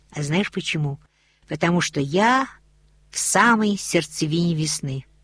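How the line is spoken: Quiet. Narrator (Russian): Рони тихо сказала

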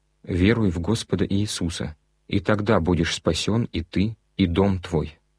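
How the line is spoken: Plain. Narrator (Russian): ответили они

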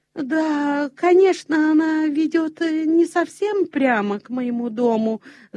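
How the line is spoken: Babbling. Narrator (Russian): залепетал Петер

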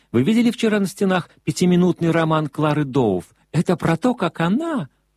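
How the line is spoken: Exclaimed. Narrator (Russian): воскликнула Милдред

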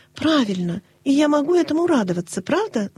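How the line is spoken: Exclamation. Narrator (Russian): воскликнула она

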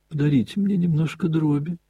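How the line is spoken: Small pleading voice. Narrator (Russian): проговорил Костя умоляющим голоском

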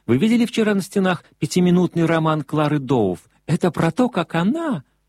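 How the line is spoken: Exclaiming. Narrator (Russian): воскликнула Милдред

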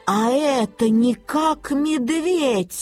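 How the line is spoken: Grandmother's exclamation. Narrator (Russian): воскликнула бабушка

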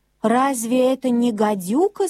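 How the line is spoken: Plain. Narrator (Russian): спросила Марта

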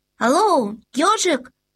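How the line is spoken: Shout. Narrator (Russian): крикнул Людвиг XIV

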